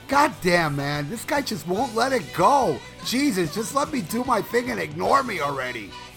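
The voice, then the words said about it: Imitates another person's voice. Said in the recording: “do an impression of that one terrible podcast”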